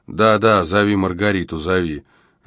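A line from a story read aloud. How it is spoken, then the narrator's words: Chuckling mutter. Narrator (Russian): У Зефа вырвался смешок, и он пробормотал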